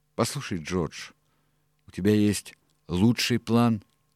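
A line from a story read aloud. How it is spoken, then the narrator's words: Slow, deliberate. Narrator (Russian): медленно вымолвил он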